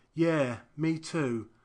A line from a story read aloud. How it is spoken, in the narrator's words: a voice inside my head regretfully sighs